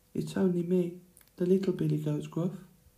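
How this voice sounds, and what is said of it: Tiny, small voice. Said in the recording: “spoke in a tiny voice.”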